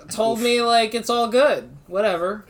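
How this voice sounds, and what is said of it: Bad impression of another person's voice. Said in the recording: “Bad Donald Trump impersonations.”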